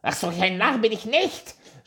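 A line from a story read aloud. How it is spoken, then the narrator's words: Dwarf shouting. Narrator (German): schrie der Zwerg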